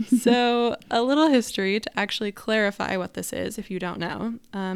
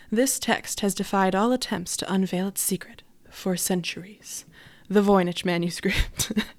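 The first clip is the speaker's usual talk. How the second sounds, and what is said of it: Dramatic documentary narrator voice. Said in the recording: “my best impression of the narrator from a YouTube documentary I watched”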